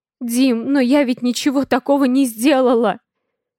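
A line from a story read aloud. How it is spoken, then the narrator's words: Sobbing. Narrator (Russian): Всхлипываю я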